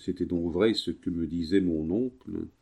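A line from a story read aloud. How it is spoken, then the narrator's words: Murmuring. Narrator (French): murmura Pétrus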